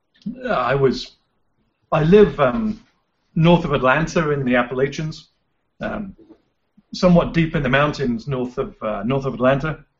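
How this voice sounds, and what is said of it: English accent. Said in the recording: “you can tell from my accent, I wasn't exactly born and bred in North Georgia ... I basically left England”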